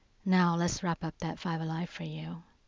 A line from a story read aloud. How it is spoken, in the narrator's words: he says